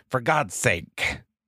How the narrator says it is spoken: Cal snapped

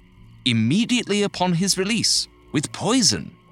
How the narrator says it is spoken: the man said eagerly

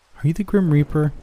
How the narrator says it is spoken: I asked excitedly

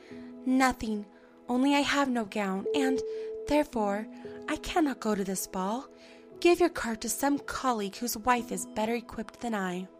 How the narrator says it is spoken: By a violent effort, she conquered her grief and replied in a calm voice

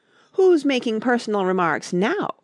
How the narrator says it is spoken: the Hatter asked triumphantly

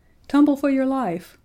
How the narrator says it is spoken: cried George

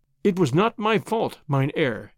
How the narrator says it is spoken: answered

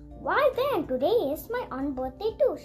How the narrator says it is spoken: announced happily

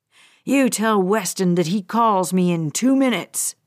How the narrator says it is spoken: Bradley snarled

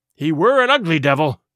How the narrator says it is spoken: cried a third pirate with a shudder

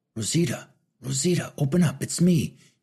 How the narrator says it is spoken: he whisper-yelled to her

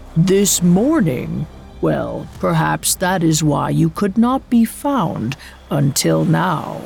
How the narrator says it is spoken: Umigame let out a low rumble from deep in his chest, then said

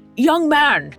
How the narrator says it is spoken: he called out

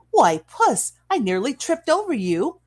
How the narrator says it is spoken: she cried, the laughter sparkling through her lashes

